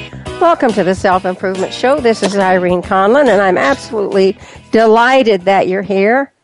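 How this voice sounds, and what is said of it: Hoarse, croaky voice from illness. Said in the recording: “apologize for my voice. I've had my first bout of flu in years, and I'm beginning to sound a little like a bullfrog”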